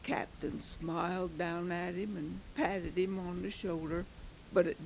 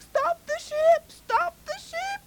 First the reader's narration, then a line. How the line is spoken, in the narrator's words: he cried